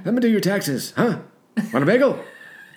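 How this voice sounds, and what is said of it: Stereotyped old Jewish man voice. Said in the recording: “It's kind of like the old Jewish guy... It sounded like an old Jewish man... my older Jewish guy imitation”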